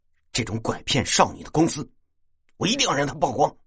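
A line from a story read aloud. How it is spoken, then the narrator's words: Angry. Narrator (Chinese): 倪大很愤怒的说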